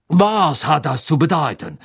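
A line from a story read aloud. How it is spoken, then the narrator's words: Calling out. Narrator (German): rief er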